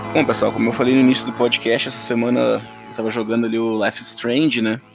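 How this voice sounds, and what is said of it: Strong gaúcho Brazilian accent. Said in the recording (Portuguese): “o meu sotaque foi gaúcho nesse começo, hein? ... foi muito gaúcho”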